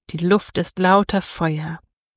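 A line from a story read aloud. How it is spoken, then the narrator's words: Murmured. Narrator (German): murmelte sie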